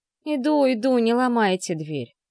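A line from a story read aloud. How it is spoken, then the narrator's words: Grumbling. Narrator (Russian): проворчала Татьяна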